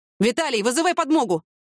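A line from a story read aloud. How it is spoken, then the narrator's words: Urgent shout. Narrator (Russian): крикнул Николай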